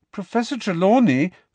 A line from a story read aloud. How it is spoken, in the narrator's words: began Parvati in a hurt and indignant voice